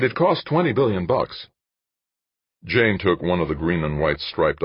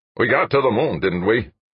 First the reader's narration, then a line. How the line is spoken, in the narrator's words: O'Brien snapped